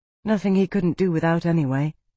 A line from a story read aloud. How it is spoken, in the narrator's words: Amara said, her voice dry